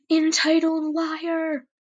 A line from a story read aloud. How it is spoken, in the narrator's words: I shouted